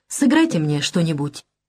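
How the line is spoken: Abrupt outburst. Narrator (Russian): резко срывается у Штейнбаха

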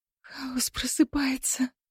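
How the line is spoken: Sobbing. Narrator (Russian): Кира всхлипнула

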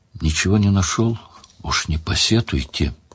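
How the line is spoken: Quiet, apologetic. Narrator (Russian): виновато развел руками, тихо сказал

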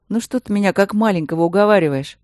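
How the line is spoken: Tired dismissal. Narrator (Russian): устало отмахнулся Максимилиан

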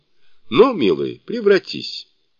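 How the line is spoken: Exclaiming. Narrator (Russian): воскликнул

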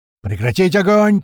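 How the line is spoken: Powerful bass shout over radio. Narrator (Russian): тут же заорал своим могучим басом в рацию большой

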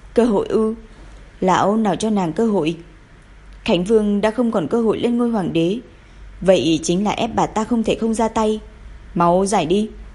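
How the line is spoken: Cold laugh. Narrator (Vietnamese): Tiêu hậu cười lạnh lùng

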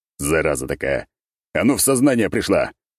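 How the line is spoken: Shouting while straining. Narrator (Russian): выкрикнул я, пытаясь вытянуть Николь из мха

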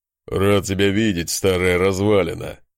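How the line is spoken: Dwarf's chuckling laugh. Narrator (Russian): хохотнул гном

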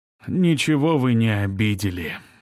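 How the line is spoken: Sighing. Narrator (Russian): вздохнул Тюрин

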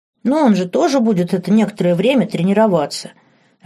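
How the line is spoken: Upset prince exclaiming. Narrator (Russian): огорченно воскликнул принц

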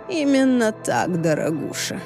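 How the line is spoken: Purr. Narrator (Russian): промурлыкал Викториус

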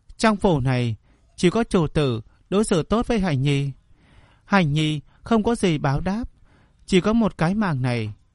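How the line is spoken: Smiling. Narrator (Vietnamese): nàng chỉ lại mỉm cười nói

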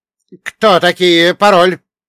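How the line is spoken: Young man shouting. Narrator (Russian): прокричал молоденький лейтенант

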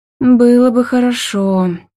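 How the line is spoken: Tired drawl. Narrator (Russian): тяну я устало

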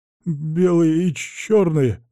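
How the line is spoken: Stammering reply. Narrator (Russian): заикаясь, отвечает милиционер

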